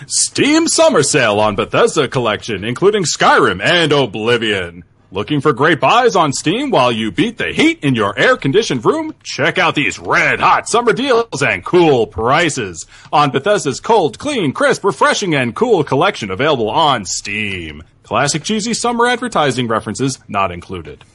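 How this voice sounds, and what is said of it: Announcer voice. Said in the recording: “in my announcer voice”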